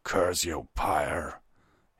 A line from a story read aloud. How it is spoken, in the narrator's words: he growled under his breath